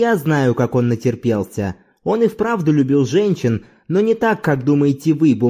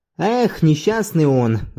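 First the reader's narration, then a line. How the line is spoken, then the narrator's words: Sighing. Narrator (Russian): вздохнул Зорбас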